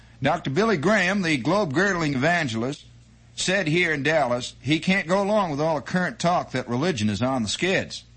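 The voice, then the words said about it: Put-on Texas accent. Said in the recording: “I suppose I should give a Dallas, Texas accent.”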